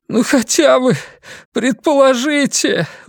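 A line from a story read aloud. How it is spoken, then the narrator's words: Pleading. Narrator (Russian): взмолился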